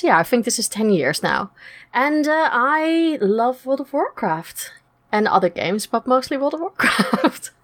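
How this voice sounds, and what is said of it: Dutch accent. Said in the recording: “I'm originally from Holland, as you can't tell from the funny accent”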